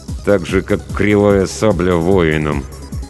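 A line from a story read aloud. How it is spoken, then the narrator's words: Through gritted teeth. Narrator (Russian): добавил сквозь зубы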